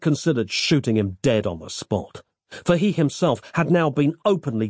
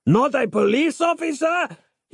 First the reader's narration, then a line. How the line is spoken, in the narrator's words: cried out, incensed